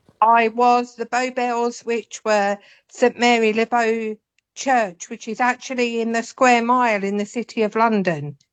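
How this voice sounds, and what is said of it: London Cockney accent. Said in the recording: “that is very much a London accent ... I'm a definite Londoner ... a true Cockney”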